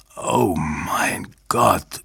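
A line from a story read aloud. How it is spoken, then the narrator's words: Groaned. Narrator (German): stöhnte er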